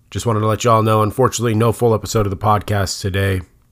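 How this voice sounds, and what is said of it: Hoarse, lower-pitched voice. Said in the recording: “my voice is a little hoarse. I'm an octave lower than I normally am”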